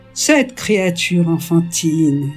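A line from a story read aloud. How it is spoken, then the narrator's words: Plain. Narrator (French): dit ma mère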